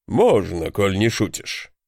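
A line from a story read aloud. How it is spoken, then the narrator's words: Stocky man's snorting chuckle. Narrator (Russian): хмыкнул рыжебородый крепыш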